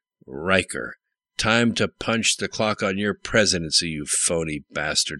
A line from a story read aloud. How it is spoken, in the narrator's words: growled